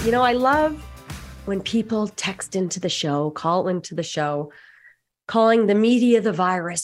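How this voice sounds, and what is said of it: Sick, under-the-weather voice. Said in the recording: “as you might be able to hear in my voice, I have one right now”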